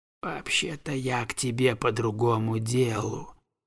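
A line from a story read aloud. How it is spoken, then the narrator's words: Ingratiating low whisper. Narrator (Russian): сказал он, понизив голос до вкрадчивого шепота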